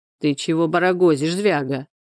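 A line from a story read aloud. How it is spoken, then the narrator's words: Calm question, man. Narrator (Russian): спокойно спросил Степана мужчина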